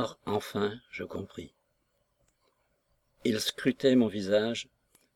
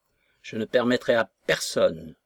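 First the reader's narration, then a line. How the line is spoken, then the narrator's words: Menacing grumble. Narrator (French): grommelait-il d'un ton menaçant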